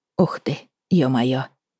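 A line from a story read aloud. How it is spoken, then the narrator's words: Moaning. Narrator (Russian): простонала я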